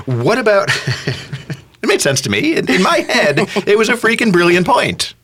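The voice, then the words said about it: High-pitched defensive voice. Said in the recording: “The high voice was speaking to you ... I'm going to have to learn to go down. From now on, when I'm defensive, I'm going to get deeper.”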